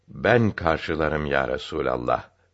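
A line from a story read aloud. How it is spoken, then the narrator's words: Plain. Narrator (Turkish): dedi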